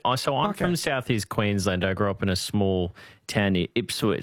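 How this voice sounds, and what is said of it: Broad Australian bogan twang. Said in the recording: “I've got a bit of a bogan twang to me”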